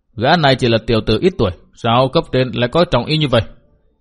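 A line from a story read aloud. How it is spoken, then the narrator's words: Question. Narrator (Vietnamese): hỏi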